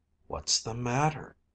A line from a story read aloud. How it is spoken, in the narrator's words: in a sleepy voice